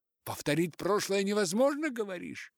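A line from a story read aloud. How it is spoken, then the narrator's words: Skeptical exclamation. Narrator (Russian): воскликнул скептически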